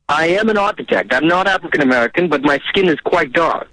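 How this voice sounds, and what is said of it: Speaks with a noticeable accent. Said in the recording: “you definitely have some sort of accent”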